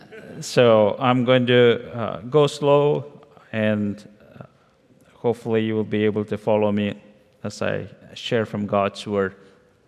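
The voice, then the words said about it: Indian-accented English, spoken slowly. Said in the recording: “I'm going to go rather slowly so you understand my Indian accent ... Every time I come back, it gets worse.”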